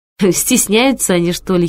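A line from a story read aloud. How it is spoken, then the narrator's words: Giggling. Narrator (Russian): хихикнула я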